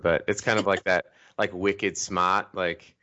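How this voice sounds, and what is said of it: Poor attempt at Boston accent. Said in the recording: “I totally butchered that accent... the Philly/Boston area... my terrible accent”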